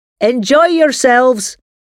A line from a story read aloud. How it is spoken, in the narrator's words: the old man shouted across the room